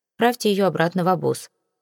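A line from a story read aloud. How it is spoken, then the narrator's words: Dry command. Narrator (Russian): сухо распорядился он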